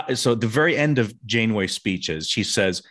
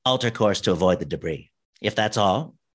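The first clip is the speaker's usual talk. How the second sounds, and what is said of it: Imitates a TV character's voice. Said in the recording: “my impersonation videos”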